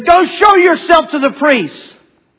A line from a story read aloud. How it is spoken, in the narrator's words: Jesus yelled back, said